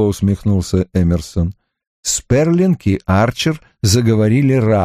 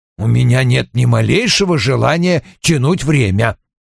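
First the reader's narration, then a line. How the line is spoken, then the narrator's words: Grumbling. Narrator (Russian): проворчал Вульф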